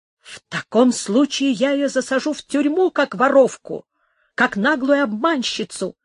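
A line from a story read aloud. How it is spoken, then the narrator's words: Resolute exclamation. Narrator (Russian): воскликнул герцог решительным тоном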